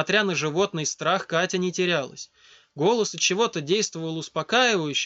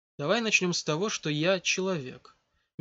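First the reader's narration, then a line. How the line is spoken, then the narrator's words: Gentle. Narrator (Russian): мягко заявил незнакомец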